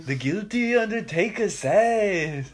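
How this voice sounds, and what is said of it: Nasal impression of a singer. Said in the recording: “Bob Dylan with his nasally ass voice ... that's a good Bob Dylan impersonation”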